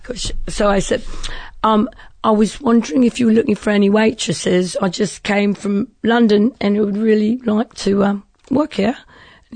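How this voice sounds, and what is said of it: Put-on British accent. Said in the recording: “talk with a British accent ... for 8 hours, I'm talking a British accent”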